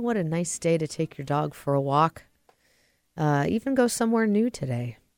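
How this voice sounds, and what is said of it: Congested, stuffy-sounding voice. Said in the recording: “my voice sounds a little different... I'm enjoying some seasonal allergies right now.”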